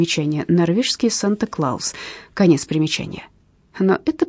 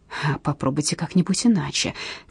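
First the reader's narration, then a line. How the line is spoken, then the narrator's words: Quiet suggestion. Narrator (Russian): тихонько предложил Кнут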